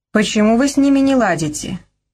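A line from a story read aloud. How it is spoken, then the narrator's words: Displeased sigh. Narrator (Russian): Ливи недовольно вздохнула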